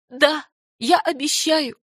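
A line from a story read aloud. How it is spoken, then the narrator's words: Sobbing. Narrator (Russian): всхлипнула Даяна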